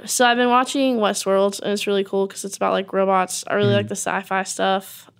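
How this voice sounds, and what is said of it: Unusually low, rough sick voice. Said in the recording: “I'm getting over strep throat. That's why I sound like a man today. my voice doesn't usually sound like this.”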